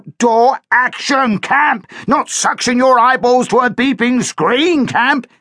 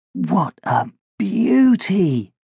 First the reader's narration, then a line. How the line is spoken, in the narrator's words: murmured Josh